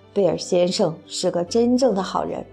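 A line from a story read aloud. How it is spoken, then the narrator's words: Sharp, stern. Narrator (Chinese): Marina 厉声说道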